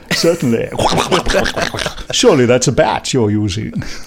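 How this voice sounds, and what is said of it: Bad imitation of another person's voice. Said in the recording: “I'm getting all my stupid voices confused. Everyone's speaking like a bad impersonation of Tom Baker.”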